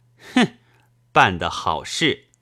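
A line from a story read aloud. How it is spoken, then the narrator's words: Sneering laugh. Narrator (Chinese): 夫人 对督办冷笑道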